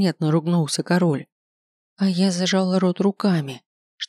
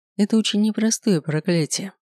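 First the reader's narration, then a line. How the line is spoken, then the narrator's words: Calm. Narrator (Russian): все тем же спокойным голосом ответил Седрик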